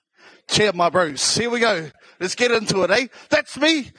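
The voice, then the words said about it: South Auckland New Zealand accent. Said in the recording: “my South Auckland accent”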